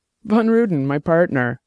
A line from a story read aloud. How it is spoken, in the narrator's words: Lino said, laughing